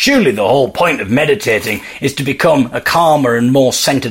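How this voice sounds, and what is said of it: Usual voice. Nothing is said of it.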